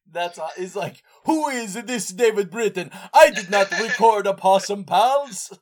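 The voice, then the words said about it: Dracula-style put-on accent. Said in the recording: “you're doing kind of a Dracula accent.”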